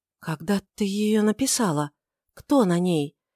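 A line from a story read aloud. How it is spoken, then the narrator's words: Whispered, trembling with excitement. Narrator (Russian): прошептала она, покрываясь мурашками от волнения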